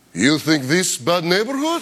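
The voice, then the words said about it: Fake Russian accent. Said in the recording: “I fake a Russian accent”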